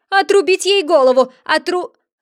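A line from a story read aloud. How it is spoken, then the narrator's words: Furious queen shouting. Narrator (Russian): Королева вспыхнула от гнева и, злобно взглянув, крикнула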